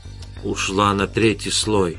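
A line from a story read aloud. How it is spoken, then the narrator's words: Whisper. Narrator (Russian): прошептал Эдгар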